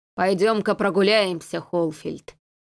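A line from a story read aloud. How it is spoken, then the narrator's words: Deep bass voice. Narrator (Russian): пробасил командир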